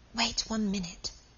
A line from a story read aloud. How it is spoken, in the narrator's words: said Margaret, whispering always